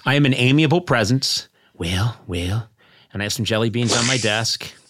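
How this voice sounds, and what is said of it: Imitates another person's voice. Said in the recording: “best Reagan impression”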